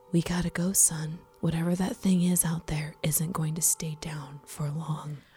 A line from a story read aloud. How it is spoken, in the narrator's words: whispers